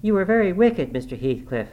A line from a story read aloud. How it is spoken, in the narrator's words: I exclaimed